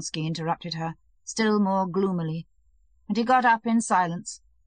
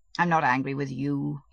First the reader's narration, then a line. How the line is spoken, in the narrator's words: he said, just as gloomily